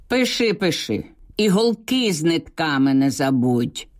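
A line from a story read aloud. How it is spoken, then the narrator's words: Loud reply filling house. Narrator (Ukrainian): Стрельніков голосно на всю хату відповів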